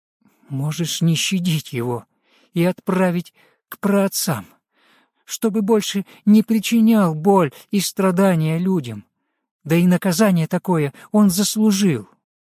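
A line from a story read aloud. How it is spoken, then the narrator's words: Slightly trembling voice. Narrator (Russian): Бажена немного дрожащим голосом сказала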